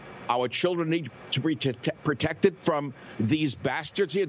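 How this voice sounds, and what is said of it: Emotional, agitated speech. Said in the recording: “Sorry, I'm getting emotional”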